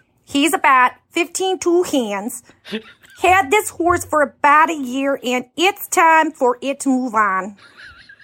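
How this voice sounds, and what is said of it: Put-on Minnesota accent. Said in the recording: “I'm going to do my hand at a ... Minnesota accent.”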